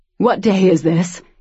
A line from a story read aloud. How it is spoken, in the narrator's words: asked desperately